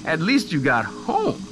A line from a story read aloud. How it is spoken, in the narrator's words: Sienna said, laughing